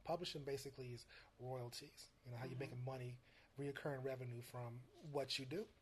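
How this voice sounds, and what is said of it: Soft, quiet, near-whispering voice. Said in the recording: “I'm whispering. You know, I got a soft voice ... you are kind of whispering”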